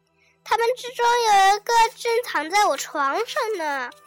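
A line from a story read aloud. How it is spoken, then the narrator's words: Loud shouting. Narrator (Chinese): 格里格先生大声叫，大声说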